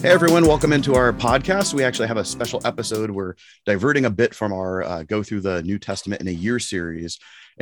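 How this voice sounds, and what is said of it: Hoarse, congested voice from a cold. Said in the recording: “my throat is messed up. ... I have a cold”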